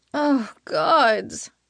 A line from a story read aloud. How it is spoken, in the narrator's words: I moan